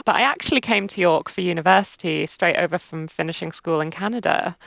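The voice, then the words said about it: English accent. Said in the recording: “my accent sounds very English”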